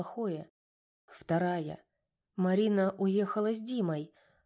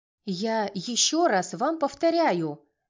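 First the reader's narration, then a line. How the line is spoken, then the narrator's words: Angry woman shouting. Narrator (Russian): гневно кричала женщина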